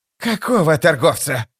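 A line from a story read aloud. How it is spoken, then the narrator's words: Growl. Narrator (Russian): прорычал Прыщ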